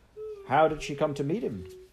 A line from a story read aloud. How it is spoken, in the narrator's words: asked the doctor, still chuckling